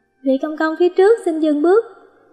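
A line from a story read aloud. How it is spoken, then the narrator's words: Raised voice calling. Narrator (Vietnamese): Sính Đình cao giọng gọi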